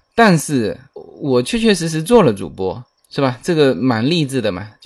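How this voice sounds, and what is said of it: Fujian-accented non-standard Mandarin. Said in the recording (Chinese): “福建人的普通话是不不太标准的……我有这个口音哈，而且这个口音是没法改了嘛……普通话不标准的”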